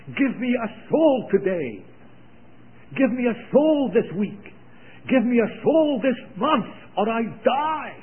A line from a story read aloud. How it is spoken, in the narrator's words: a brother cried from the depth of their heart